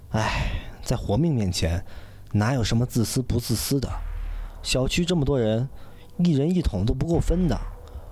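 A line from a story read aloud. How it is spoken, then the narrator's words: Sighing. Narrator (Chinese): 林岩叹了口气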